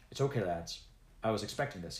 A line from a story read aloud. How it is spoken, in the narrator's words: he said